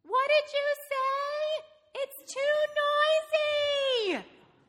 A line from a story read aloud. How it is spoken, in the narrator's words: yelled her mother